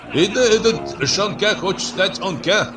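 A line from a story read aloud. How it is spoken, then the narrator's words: Joking shout. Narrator (Russian): Кто-то из остряков крикнул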